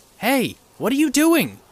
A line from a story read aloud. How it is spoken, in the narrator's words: shouted out